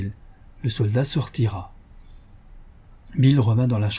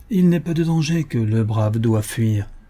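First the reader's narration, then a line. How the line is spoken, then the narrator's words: Calm tone. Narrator (French): répondit Bill Cody d'un ton calme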